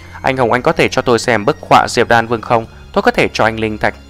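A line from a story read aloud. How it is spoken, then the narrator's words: Excited, trembling woman's voice. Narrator (Vietnamese): cô gái mặt sẹo kích động, giọng run rẩy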